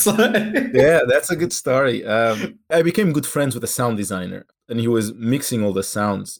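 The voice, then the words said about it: Slight French or Portuguese accent. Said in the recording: “I think it still has a little bit, not maybe it's more French, but my English accent had a very strong Portuguese accent on top”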